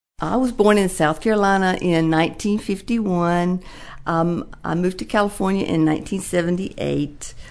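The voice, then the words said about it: Southern American accent. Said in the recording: “I still seem to retain my Southern accent. A lot of people ask me even now where I'm from. I believe that I still have this accent”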